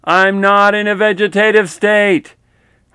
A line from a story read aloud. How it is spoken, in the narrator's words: so frustrated and angry because I was yelling with every ounce of strength I had